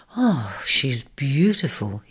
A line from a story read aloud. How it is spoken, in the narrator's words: he sighed